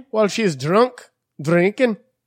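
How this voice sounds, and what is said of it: Put-on Jamaican accent. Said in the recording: “That's my Jamaican accent.”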